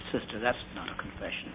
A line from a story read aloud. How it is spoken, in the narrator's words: I just said gently